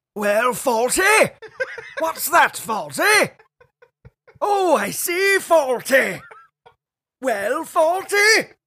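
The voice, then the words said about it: Imitates Major character from sitcom. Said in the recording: “That's really good ... playing Major from Fawlty Towers”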